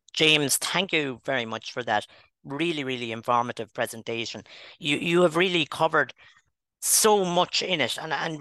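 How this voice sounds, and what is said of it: Irish Wexford accent. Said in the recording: “here's a Wexford man to give me his Wexford accent”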